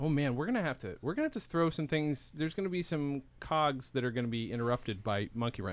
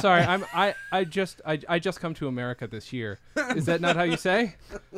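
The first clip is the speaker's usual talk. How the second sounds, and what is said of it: Put-on foreign accent. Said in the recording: “good ... Accent”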